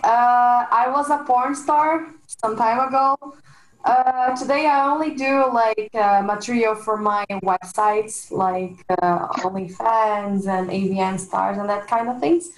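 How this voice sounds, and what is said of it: Brazilian accent. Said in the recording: “where that accent is from ... I'm from Brazil”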